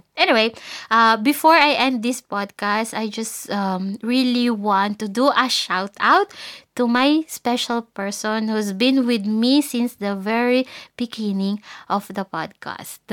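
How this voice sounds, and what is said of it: Husky, hoarse voice. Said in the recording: “medyo malat pa ako ... pardon me if my voice is still husky. I don't know if you guys can notice that.”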